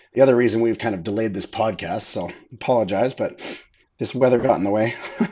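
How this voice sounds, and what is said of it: Voice weak from a cold. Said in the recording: “I'm just getting over a cold. My voice is still not fully come back.”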